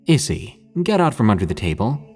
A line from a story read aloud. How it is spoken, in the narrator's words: I said in a slightly stern voice